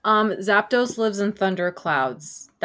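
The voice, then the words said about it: Robot voice. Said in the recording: “That's my robot voice. ... that was a great robot impression.”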